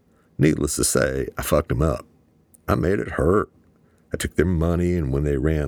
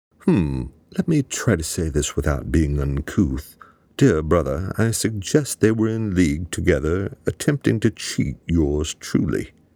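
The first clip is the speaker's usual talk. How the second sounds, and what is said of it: Put-on British accent. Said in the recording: “switched into a British accent. ... cut the fake accent.”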